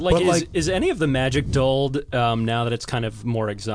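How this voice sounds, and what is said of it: Usual voice. Nothing is said of it.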